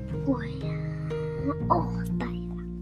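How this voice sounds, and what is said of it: Speaking very quietly. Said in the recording (Chinese): “你怎么讲话这么小声？ ... 你你今天是感冒吗？讲话这么小声。”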